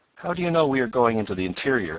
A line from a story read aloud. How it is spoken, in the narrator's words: asked Tom, a bit sharply, for he did not like the assurance of the man